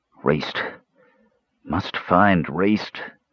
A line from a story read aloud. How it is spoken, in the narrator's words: Caramon mumbled